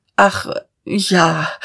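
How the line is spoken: Stammering. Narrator (German): stammelte Dieterich

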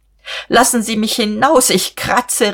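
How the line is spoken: Calling out through laughter. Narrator (German): rief sie und wollte kreischen, aber sie musste lachen

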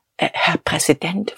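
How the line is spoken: Faltering whisper. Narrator (German): flüsterte er wankend

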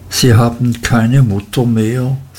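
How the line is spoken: Gentle question. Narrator (German): fragte mit milder Stimme

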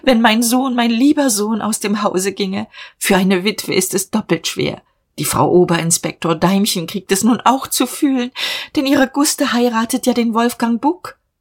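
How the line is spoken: Sobbing. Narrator (German): schluchzte sie

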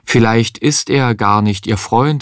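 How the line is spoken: Plain. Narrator (German): sagte Micha einmal

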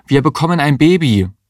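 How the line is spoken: Called out. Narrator (German): rief Mario

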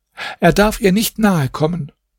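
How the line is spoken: Housekeeper calls out. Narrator (German): rief die Wirtschafterin

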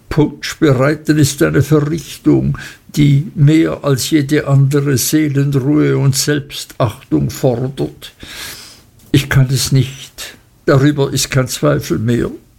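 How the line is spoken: Muffled sobbing. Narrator (German): schluchzte er hinter dem Tuch hervor

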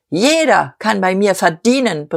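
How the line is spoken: Roaring with undiminished force. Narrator (German): brüllte Dieterich mit unverminderter Gewalt

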